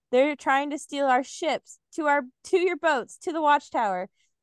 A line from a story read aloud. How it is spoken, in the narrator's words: Rolf shouted